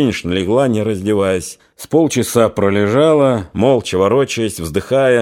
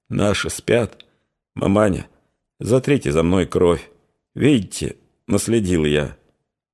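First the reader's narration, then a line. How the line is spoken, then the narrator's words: Hoarse whisper. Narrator (Russian): хрипло прошептала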